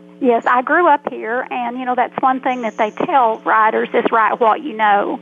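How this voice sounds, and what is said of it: Arkansas Southern accent. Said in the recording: “I'm guessing you must have roots in Arkansas yourself... you can tell from the accent”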